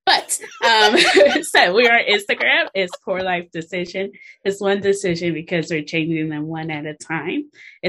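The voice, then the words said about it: Put-on British accent. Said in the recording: “hopefully I won't keep this British accent for long”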